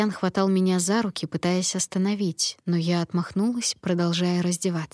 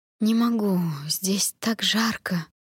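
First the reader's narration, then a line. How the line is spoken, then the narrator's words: Hoarse mumble. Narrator (Russian): хрипло промямлила я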